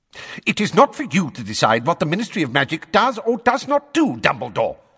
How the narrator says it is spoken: snapped Fudge, now a shade of magenta

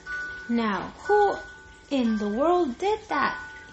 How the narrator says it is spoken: he exclaimed

